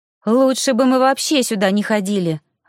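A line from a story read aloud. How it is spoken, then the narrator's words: Startled exclamation. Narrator (Russian): воскликнула она, когда поняла, что видит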